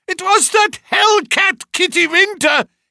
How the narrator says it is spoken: he cried

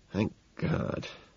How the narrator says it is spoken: I whisper

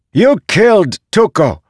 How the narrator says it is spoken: shouted one of the others

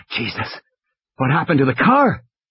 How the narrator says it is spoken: Malcolm gasped

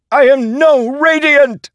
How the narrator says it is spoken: Vienta shrieked in agony

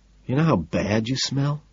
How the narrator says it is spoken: I whisper this soothingly

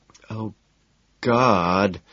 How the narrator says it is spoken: she moans loudly

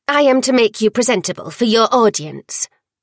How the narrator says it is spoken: Worm snapped

